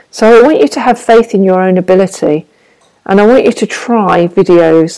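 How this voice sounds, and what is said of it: Brummie (Birmingham) English accent. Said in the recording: “the Brummy girl with the Brummy accent”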